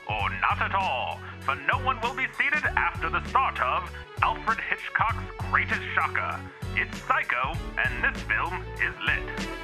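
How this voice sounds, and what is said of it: 1960s movie announcer voice. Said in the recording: “it must be supposed to be read in like a 60s announcer voice”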